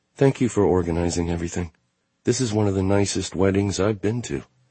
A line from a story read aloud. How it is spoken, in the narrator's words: Sarah must think so too, because she says quietly